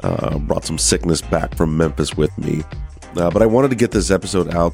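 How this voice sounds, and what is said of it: Hoarse voice from laryngitis. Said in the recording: “I'm battling, as I'm sure you can hear, with some pretty serious laryngitis. So my voice isn't everything it should be, and I may be losing it. Seems like it's going away.”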